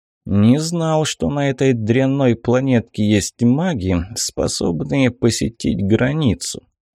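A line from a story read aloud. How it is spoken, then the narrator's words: Muffled hollow voice. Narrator (Russian): глухо сказал один из них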